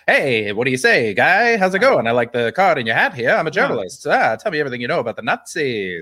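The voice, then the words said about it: Old-time movie radio accent. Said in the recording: “That's full radio voice ... that's an accent that they made up within the movies ... a voice that they created for American entertainment”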